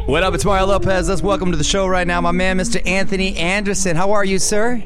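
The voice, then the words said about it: Energetic radio announcer voice. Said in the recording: “You have a different radio voice than you do with your extra voice.”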